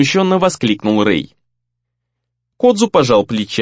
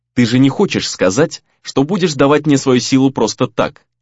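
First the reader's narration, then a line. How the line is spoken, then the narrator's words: Sharp and angry. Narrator (Russian): резко и зло произнес Рэй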